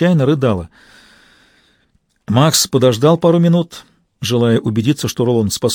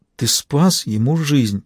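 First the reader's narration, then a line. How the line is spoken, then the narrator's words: Trembling agitated whisper. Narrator (Russian): прошептала она дрожащим голосом, выдававшим волнение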